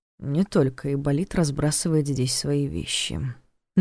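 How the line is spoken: Frowning mutter. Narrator (Russian): нахмурившись, пробормотал

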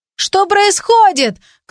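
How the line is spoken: Shout. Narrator (Russian): кто-то крикнул

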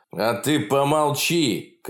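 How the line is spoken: Thug shouting. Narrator (Russian): кричал один из шпаны

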